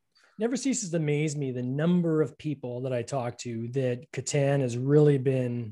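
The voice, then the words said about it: Canadian accent. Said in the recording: “I say Catan because I'm in Canada. I got a funny accent.”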